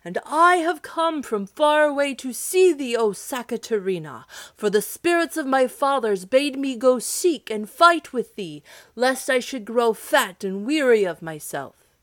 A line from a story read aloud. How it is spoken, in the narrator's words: shouted the hero